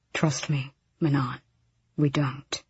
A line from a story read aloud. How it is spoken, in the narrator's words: Sorrel said softly